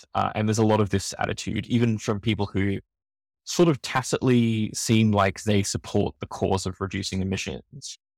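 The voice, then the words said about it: Australian accent. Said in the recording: “I come from Australia, you can tell from my accent”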